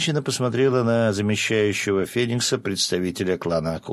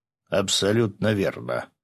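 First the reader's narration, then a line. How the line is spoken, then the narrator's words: Big man's deep bass. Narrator (Russian): пробасил здоровяк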